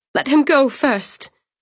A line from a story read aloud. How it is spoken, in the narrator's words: Cianni pleaded